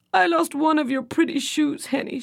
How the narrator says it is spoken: she sobbed

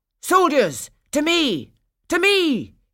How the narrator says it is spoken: cried

